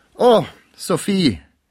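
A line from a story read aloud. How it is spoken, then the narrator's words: Calling out. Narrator (German): rief Pons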